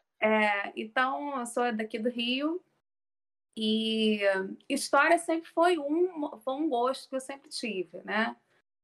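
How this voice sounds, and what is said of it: Carioca Portuguese accent. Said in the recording (Portuguese): “eu sou carioca, né? Acho que o sotaque já está deixando bem claro. ... O sotaque não, não, não me engana”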